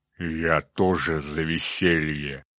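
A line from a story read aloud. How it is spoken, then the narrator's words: Growling giant voice. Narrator (Russian): прорычал циклоп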